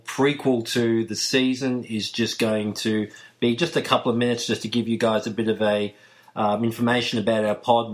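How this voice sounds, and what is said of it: Australian accent. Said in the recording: “you can probably tell from my accents, ... flying the flag from all the way down under”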